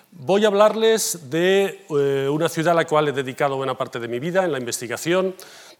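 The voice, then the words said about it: Slight Catalan accent. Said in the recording (Spanish): “tengo un poco acento catalán”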